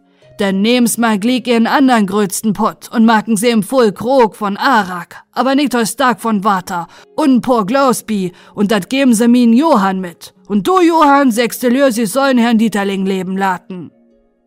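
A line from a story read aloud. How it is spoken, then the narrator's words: Calling out. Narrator (German): rief dann Herr Maifeld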